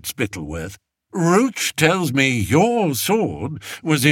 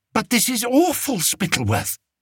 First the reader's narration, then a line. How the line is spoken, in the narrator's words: whispered the king